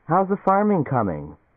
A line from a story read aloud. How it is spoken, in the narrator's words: Helen Morris called cheerfully